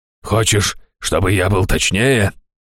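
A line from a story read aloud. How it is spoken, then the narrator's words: Barked from behind door. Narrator (Russian): рявкнул Раштау из-за двери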